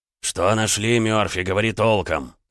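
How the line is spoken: Barked. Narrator (Russian): рявкнул Финниган

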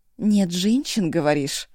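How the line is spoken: Hoarse questioning. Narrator (Russian): хрипло переспросил Сека

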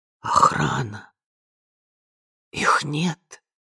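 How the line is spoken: Hoarse wheeze. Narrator (Russian): прохрипела она

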